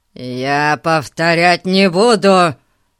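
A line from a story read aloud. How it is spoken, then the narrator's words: Growling, rising anger. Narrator (Russian): зарычал мистер Гун, вскипая все больше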